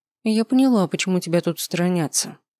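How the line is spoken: Calm remark. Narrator (Russian): спокойно заметила

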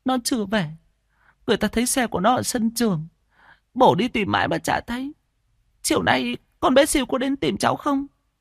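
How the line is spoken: Tearful, quavering mother. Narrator (Vietnamese): Mẹ của Siêu mếu máo

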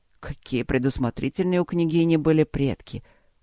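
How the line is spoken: Surprised mutter. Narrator (Russian): удивленно пробормотал Люк

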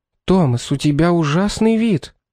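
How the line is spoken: Exclaiming. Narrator (Russian): воскликнула Шарлотта

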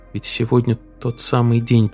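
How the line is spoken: Whisper. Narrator (Russian): прошептала она

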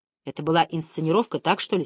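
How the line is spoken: Quiet question. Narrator (Russian): спросил тихо

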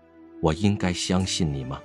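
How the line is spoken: Indifferent. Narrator (Chinese): 蓝曦臣淡淡地道

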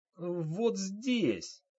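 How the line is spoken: Quiet pitiful whimper. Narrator (Russian): жалостливо сморщив лицо и тихо хныкая

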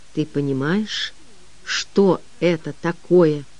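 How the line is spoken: Quiet. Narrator (Russian): Хедрон тихо произнес

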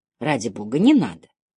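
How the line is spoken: Tearful mutter. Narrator (Russian): пробормотала Синди, и глаза ее наполнились слезами

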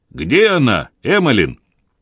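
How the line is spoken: Sharp, rude question. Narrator (Russian): Врач резко и грубо спросил

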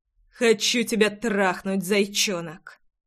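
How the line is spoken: Rough growl. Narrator (Russian): Грубо рыкнул

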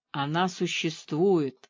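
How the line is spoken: Whisper. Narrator (Russian): шепнула кот

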